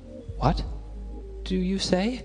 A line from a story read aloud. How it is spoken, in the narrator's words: stammered Major Kovalov